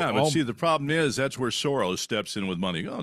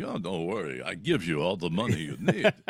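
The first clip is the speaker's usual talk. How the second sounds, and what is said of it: George Soros impression, foreign accent. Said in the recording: “I like the accent. The accent is very good.”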